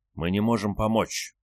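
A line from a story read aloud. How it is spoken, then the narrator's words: Growling. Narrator (Russian): прорычала чужаку Альфа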